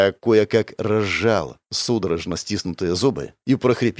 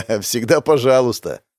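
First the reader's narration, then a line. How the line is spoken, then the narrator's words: Laughing. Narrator (Russian): рассмеялся первый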